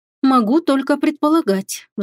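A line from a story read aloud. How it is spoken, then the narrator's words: Sigh. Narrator (Russian): вздохнула я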